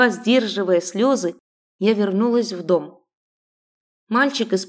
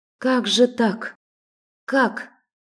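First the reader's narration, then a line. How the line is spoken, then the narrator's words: Whisper. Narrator (Russian): прошептала я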